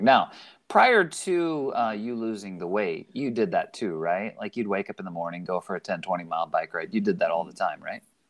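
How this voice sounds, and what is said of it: Sarcastic tone. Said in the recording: “I'm being sarcastic. ... I know you were being sarcastic.”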